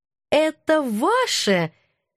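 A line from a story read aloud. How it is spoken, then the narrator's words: Sugary voice. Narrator (Russian): елейным голоском поинтересовалась я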